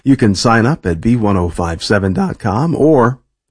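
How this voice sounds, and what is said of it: Voice cracks mid-sentence. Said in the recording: “did my voice crack? I think it did. Puberty again.”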